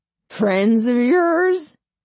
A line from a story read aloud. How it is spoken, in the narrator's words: Dale slurs